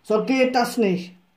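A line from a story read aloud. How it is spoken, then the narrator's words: Finally bellowed. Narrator (German): brüllte er schließlich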